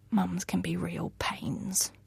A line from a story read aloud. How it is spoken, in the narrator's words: she whispered